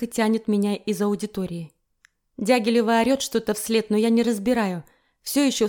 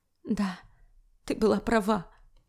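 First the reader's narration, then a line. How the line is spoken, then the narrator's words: Glum agreement. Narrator (Russian): уныло поддакиваю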